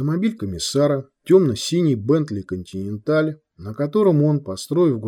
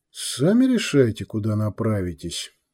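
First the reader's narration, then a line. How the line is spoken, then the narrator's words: Gruff grumble. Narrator (Russian): буркнул Сантьяго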